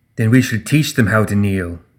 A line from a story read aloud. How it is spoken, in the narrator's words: Ashlyn growled